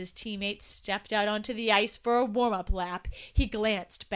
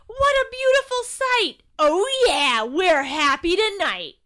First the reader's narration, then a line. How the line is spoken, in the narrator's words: he yelled